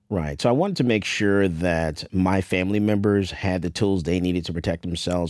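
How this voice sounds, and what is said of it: Rich broadcaster-style radio voice. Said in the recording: “you do definitely have a radio voice”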